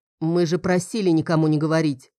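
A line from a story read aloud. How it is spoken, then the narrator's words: Menacing, grim. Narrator (Russian): грозно произнес Лодин, становясь еще мрачнее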